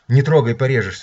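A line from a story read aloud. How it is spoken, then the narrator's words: Mother's cry. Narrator (Russian): вскрикнула мама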